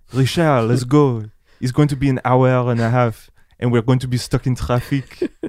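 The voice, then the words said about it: Imitates another person's accent. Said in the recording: “The accent, bro.”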